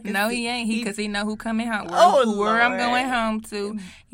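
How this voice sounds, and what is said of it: St. Louis accent. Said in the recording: “the St. Louis accent coming out”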